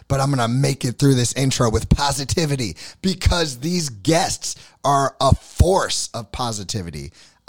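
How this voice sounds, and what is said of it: Hoarse, strained voice. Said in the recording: “can you tell? I lost my voice.”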